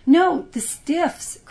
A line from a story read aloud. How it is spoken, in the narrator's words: cried his sisters